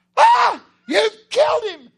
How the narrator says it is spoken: She screams

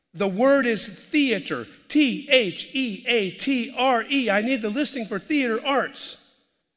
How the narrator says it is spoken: This guy gets really upset, and in a loud voice he says

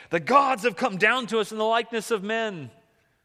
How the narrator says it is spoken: they start yelling in their own language, the Lyconian

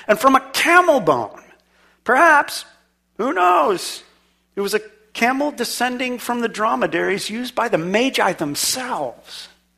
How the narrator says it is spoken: Petrov exclaimed

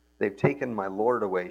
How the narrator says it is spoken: she said

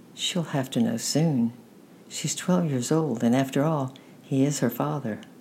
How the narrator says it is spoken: said my grandmother gently

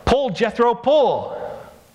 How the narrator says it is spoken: the farmer yelled

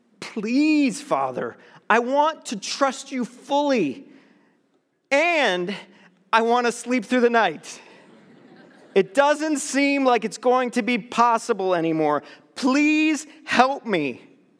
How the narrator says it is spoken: I was so tired of playing God in my head, I pleaded with the Lord saying

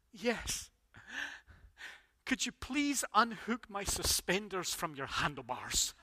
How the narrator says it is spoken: And the old man choked and coughed and replied

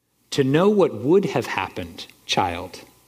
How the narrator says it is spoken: said Aslan

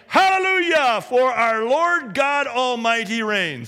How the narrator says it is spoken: a great multitude, like the roar of rushing waters and like loud peals of thunder shouting

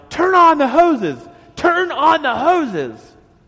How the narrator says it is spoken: Connor yelled

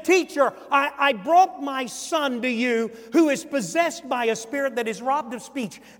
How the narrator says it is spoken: shouts, said

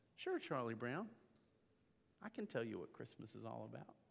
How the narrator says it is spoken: Linus so simply and so calmly says

